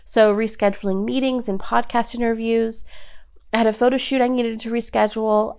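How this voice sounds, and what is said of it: Strained, worn-out voice. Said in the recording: “As you can probably hear in my voice, like it couldn't have withstood it ... rest my voice”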